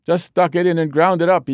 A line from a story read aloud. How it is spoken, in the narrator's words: he yelled